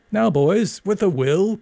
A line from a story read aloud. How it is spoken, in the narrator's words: cried Walker